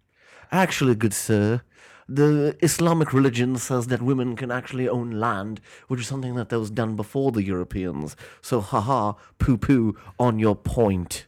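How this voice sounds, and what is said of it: Fake British accent. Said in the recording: “I'm reading it in Ali's British fake accent. British accent.”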